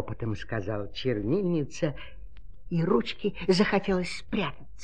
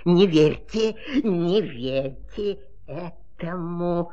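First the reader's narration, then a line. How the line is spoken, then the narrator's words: Grumbling. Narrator (Russian): проворчало слово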